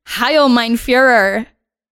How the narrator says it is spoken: Claire giggled and shouted at him

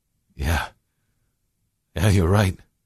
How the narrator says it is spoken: William chuckled

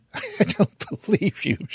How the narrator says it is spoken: she laughs

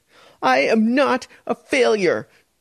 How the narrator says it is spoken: she yelled, her voice bouncing back against the high ceiling

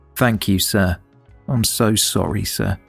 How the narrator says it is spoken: Hardy said quietly

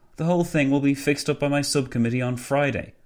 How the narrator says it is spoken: Nicholson sighed

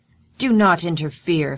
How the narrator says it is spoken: Fallon shouts to the crowd

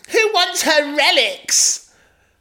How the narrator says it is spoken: Bella screamed

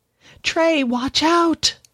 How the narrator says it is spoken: Jack screamed out

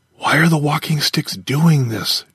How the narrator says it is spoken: Jar whispered

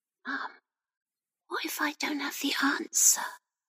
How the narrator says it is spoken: Rebecca whispered, her eyes reddening

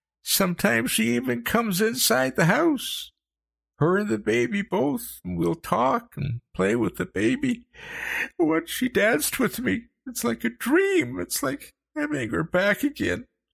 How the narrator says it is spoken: he sobbed

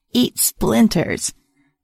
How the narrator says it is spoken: A raspy, crackly voice called out from behind me

